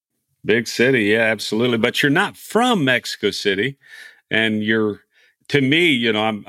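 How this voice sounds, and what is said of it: Texan accent. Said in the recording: “I'm from Texas ... our accents are different ... I think I'm the one with the accent”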